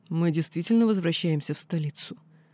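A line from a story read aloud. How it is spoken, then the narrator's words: Smirking, calm reply. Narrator (Russian): Я усмехнулась и спокойно ответила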